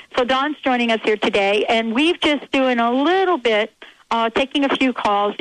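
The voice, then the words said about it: Slight East Coast accent. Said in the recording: “I'm on the East Coast. I got this little accent going on here. But I guarantee you when I come back, it'll all be all back to my Seattle talk.”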